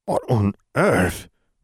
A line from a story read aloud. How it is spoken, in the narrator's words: Vernon murmured